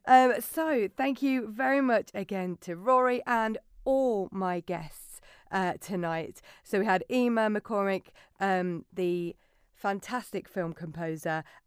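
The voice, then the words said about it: Hoarse, failing voice. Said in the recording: “I don't know why my voice is going today.”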